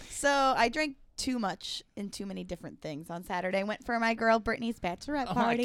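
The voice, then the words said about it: Slightly raspy, hoarse voice. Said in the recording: “Your voice is still gone? ... I'm a little raspy ... in the morning.”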